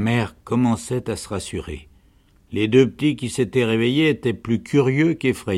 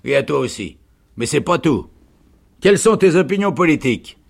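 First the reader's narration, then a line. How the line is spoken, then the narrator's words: Shouting sergeant. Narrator (French): cria le sergent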